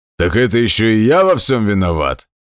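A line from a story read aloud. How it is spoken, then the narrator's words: Roaring. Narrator (Russian): взревел Хаммер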